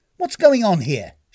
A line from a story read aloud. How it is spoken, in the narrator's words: snapped jealously